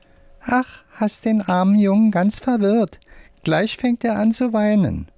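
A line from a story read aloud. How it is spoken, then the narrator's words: Squeaky voice. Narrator (German): sagt mit piepsiger Stimme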